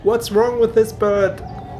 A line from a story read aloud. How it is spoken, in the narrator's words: he shouted to the Marquis